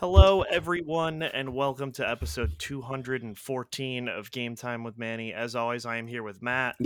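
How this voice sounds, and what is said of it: Congested, stuffed-up voice. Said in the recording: “I am also here with special guest my cold ... I sound stuffed up and may cough during the podcast”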